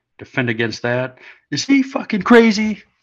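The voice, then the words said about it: Bill Paxton impression from Aliens. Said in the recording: “best Bill Paxton aliens impersonation. Not very good.”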